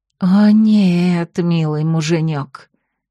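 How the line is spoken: Hissing. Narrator (Russian): зашипела она

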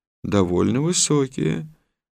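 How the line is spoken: Calm reply. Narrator (Russian): спокойно ответил Валерий Васильевич

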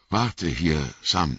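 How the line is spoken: Stammering. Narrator (German): stammelte er

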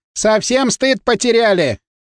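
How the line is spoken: Woman yelling. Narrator (Russian): заорала на нас какая-то тетка из дома Светлана

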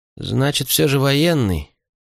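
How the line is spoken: Muttered under breath. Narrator (Russian): пробурчала себе под нос Риана

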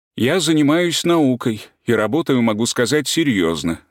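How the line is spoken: Plain. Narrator (Russian): сказал Волков

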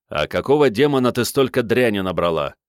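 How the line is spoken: Unfriendly questioning tone. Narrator (Russian): недобрым тоном поинтересовался пилот

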